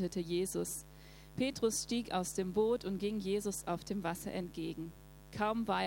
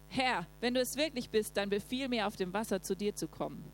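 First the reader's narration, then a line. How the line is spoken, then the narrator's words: Called out. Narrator (German): rief Petrus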